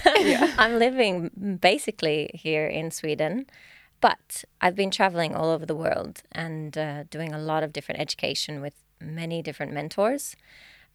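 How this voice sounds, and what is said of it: Australian English accent. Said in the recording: “I'm from Australia, if you didn't catch the accent.”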